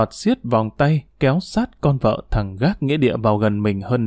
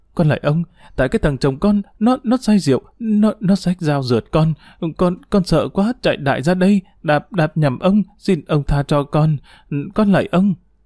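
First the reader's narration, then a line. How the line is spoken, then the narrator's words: Trembling voice. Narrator (Vietnamese): Tu run rẩy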